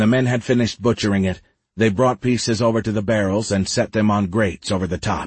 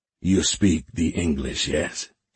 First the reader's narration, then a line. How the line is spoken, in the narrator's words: he said in his deep voice